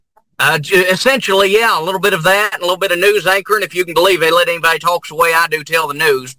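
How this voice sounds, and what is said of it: Kentucky accent. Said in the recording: “you've got an accent, but I mean, in Kentucky”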